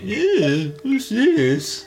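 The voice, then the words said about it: Imitates a character's voice. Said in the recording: “That was a good impression.”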